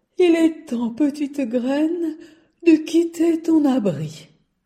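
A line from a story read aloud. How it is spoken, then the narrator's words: Sleepy voice. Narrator (French): dit d'une voix endormie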